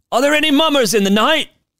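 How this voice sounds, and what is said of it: Disguised voice, attempted British accent. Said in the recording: “in a disguised voice ... I don't know why they're British ... I cannot do accents.”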